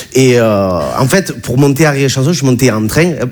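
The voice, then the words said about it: Regional French accent, not Parisian. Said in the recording (French): “tu as vu mon accent, je viens pas de Bagnolet”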